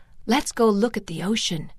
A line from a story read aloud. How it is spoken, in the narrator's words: whispered